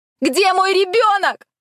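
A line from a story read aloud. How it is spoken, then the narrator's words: Repeated shout. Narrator (Russian): вновь крикнула я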